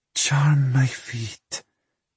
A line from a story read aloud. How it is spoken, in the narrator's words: she breathed into Nikolai's ear